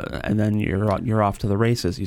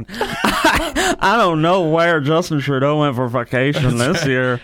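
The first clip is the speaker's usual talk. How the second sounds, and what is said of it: Put-on southern accent. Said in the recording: “I'm not sure why I'm giving him a southern accent.”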